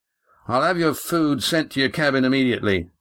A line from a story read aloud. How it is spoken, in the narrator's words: said Mirak loudly, appearing hastily